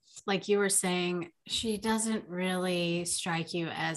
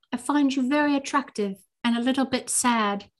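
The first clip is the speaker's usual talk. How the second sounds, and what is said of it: Imitating a character's accent. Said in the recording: “I'm going to try to do her accent.”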